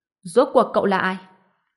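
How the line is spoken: Loud shout. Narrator (Vietnamese): Ông ta hét lớn

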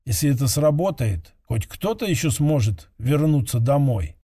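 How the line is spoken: Quiet, to himself, exhaling. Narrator (Russian): Медленно выдохнув, он тихо сказал, словно самому себе

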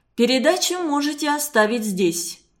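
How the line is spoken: Dry, curt. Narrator (Russian): сухо сказал он

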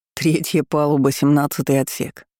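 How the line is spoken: Snorting chuckle. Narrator (Russian): хмыкнул Эрик

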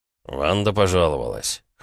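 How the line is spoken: Snort. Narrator (Russian): хмыкнул он

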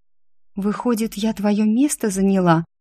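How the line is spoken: Timid reply. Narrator (Russian): отозвалась Ирина робко

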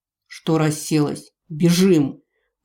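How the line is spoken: Barked. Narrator (Russian): рявкнул Гард

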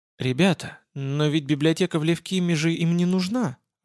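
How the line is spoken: Timid woman pilot. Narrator (Russian): робко напомнила летчица

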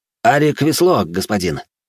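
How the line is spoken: Young soldier's brisk report. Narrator (Russian): бодро доложил молодой солдат

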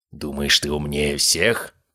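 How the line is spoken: Growling. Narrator (Russian): прорычал он

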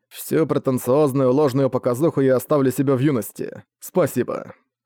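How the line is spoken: Plain. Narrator (Russian): сказал учитель

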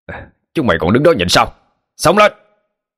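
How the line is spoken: Leader's rallying shout. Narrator (Vietnamese): Sau tiếng hiệu triệu của người trưởng nhóm

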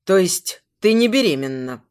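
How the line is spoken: Cold conclusion. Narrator (Russian): Холодно подводит итог Константин

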